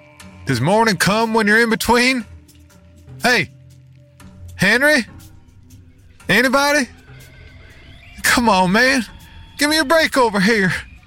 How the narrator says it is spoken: called out

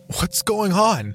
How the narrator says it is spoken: Doyle pleaded, growing afraid

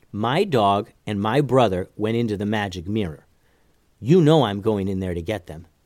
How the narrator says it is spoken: Mallory said

